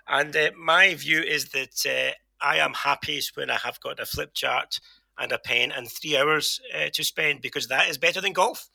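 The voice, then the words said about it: Posh southern English accent. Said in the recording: “I am a short, broad Glaswegian. This is my posh southern accent for now.”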